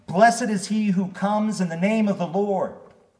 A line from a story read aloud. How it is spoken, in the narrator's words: They were shouting